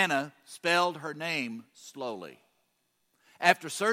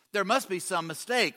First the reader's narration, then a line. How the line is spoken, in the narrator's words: Ruthanna replied